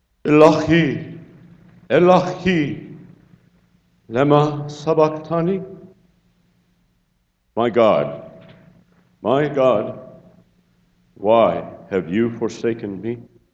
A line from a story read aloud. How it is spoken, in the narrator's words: cried out in a loud tone